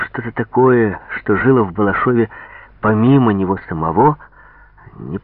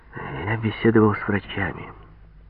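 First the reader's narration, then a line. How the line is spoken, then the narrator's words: Quiet. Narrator (Russian): негромко сказал Вяженский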